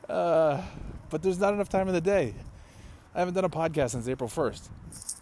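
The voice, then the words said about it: Breathless, out of breath while walking. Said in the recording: “I'm already out of breath. ... Oh, God, I can't walk and talk.”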